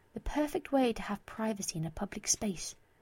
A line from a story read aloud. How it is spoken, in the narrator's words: whisper into her ear